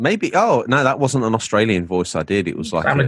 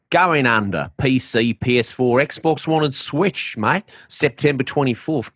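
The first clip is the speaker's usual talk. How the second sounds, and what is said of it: Put-on Australian accent. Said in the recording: “If it was Australian, it would have been...”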